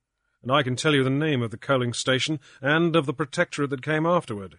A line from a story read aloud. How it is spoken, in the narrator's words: he said